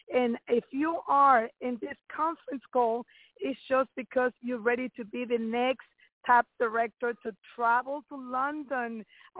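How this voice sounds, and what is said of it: Accented, sore-throated sick voice. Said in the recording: “I'm so sorry that my accent and I got kind of sick, my throat is hurting a little bit”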